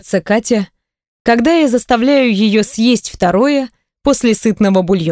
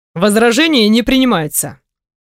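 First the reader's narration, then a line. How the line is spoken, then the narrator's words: Stern tone. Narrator (Russian): Говорю строгим тоном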